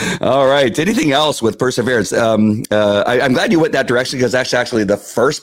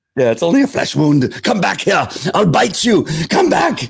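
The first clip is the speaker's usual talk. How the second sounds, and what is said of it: Put-on English accent, Monty Python line. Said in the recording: “That's my English accent. How'd you like it?... It's fantastic.”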